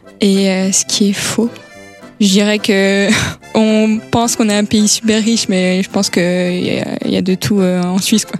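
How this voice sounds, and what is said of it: Strong Swiss French accent. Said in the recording (French): “accent bien prononcé ... on a un fort accent ... je pense mon accent”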